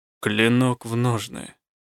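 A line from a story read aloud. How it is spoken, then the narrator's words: Calm command. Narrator (Russian): спокойно приказал Рук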